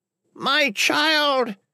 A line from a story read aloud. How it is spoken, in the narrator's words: she cackled